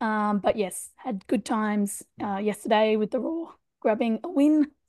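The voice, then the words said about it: Hoarse, shaky voice. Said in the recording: “you're feeling a bit hoarse today ... I apologize in advance for my voice. It will be very, very shaky today.”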